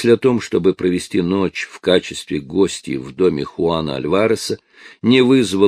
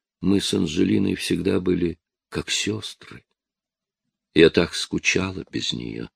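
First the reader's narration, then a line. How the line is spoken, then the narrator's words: Quiet voice. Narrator (Russian): произнесла тихим голосом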